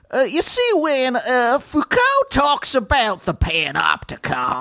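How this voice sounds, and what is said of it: Colonel Sanders-like rich Southern accent. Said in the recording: “that feels very Colonel to me, Colonel Sanders... That sounded like a rich Southern man.”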